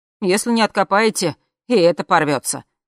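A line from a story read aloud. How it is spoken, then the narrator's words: Wry snort. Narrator (Russian): хмыкнул Андрей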